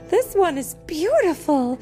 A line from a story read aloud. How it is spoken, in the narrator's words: exclaiming